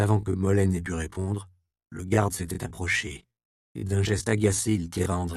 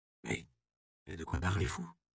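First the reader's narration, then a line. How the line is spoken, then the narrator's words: Stammered. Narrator (French): balbutia l'apothicaire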